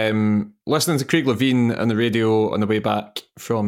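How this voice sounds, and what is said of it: Usual voice. Nothing is said of it.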